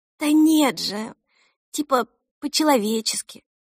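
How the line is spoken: Exasperated child's sigh. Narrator (Russian): вздохнула Эльса, как вздыхают почти 8-летние дети, когда разговаривают с папами

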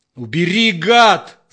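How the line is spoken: Distorted yell. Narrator (Russian): заорал Степан не своим голосом

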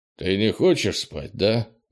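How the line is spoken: Weary question. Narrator (Russian): устало спросил Крис

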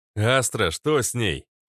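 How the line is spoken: Shout. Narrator (Russian): крикнул я

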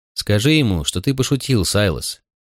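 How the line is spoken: Quiet command. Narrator (Russian): велел негромко

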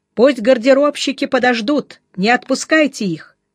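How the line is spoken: Shouting after someone. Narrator (Russian): крикнул ему вслед Жеглов

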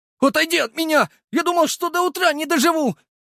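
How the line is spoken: Frightened squeak. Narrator (Russian): пискнул Макар

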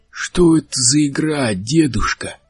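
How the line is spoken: Creaky voice. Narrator (Russian): Проскрипел рыжий

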